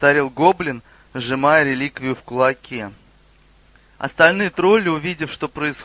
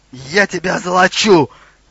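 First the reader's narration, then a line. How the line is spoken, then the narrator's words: Exclamation. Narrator (Russian): воскликнул Хрюгл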